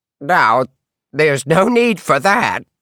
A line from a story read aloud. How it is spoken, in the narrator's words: she croaked out